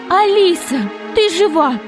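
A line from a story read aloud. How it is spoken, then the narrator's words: Mother shouting. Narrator (Russian): закричала мама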